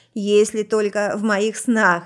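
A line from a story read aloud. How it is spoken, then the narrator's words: Laughing. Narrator (Russian): рассмеялась она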